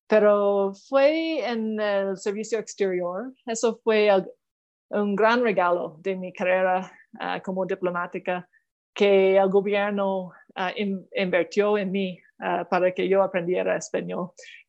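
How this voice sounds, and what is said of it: Canadian accent speaking Spanish. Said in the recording (Spanish): “tengo ese acento canadiense”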